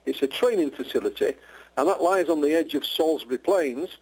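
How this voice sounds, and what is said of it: Yorkshire English accent. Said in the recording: “I'm in Yorkshire, yes. Born and bred. ... I love that accent.”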